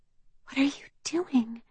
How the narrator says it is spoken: Olympia whispers

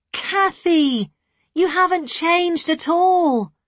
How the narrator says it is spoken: she cried, in delight

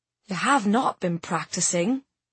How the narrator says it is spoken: whispered Tamsin

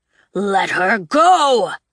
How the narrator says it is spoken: Gavriel thundered

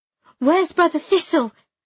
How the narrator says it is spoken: I shouted

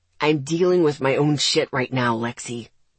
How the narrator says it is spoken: he said gruffly

